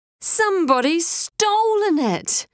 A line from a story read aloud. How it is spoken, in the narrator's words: Ty wailed